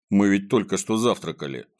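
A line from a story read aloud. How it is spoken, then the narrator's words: Plain. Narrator (Russian): сказал Незнайка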